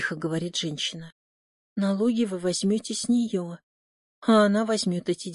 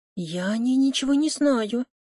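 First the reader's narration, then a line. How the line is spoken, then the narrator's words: Frightened woman. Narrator (Russian): испуганно говорит его собеседница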